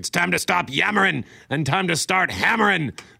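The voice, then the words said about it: Lousy imitation of another person's voice. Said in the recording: “Mr. T as B.A. Baraka saying something like... I just did a lousy impersonation.”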